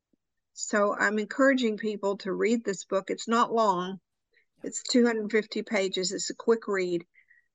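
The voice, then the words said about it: Arkansas accent, speaking fast. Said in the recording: “I talked really fast today, which is unusual for me... my Arkansas accent”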